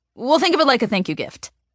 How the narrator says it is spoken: blurts out in one mushed-together phrase

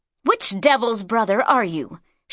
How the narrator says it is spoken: she spat at him

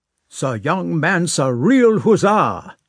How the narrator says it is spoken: shouted the colonel

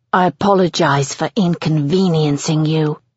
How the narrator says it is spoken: he hisses

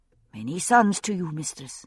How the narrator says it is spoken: chimed in his companions

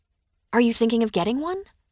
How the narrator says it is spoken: she asked

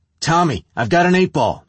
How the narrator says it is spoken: Listen to Nikki yell

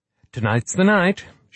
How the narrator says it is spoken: she said cheerfully

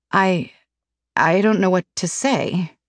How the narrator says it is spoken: I murmur

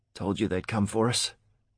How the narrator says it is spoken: Aaron croaked

